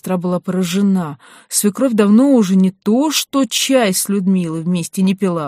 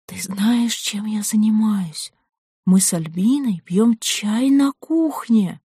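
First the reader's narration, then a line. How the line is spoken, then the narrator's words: Excited whisper. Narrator (Russian): Людмила возбужденным шепотом стала говорить ей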